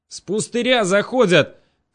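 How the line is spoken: Shouted. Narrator (Russian): крикнул

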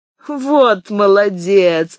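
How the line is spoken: Laughing. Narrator (Russian): засмеялась Монтале

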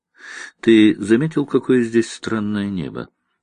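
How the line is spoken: Quiet question. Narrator (Russian): негромко спросила она

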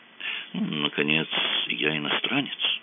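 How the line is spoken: Mumbled. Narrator (Russian): промямлил он

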